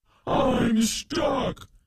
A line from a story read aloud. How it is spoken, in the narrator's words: the goblin shouted